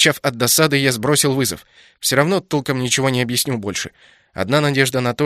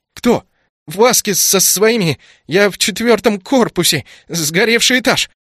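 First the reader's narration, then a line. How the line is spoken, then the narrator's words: Excited stammer, breathless running. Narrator (Russian): От волнения заикание снова усилилось, да и сложно было говорить на бегу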